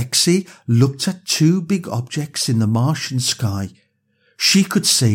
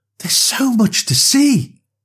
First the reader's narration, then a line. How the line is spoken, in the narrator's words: Lexi exclaimed excitedly